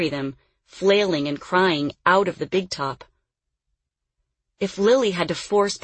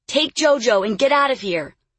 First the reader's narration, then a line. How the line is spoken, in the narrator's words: Lily yelled